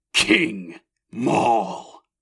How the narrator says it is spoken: Maul bristled at it, snarling

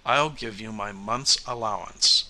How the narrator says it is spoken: she said coldly

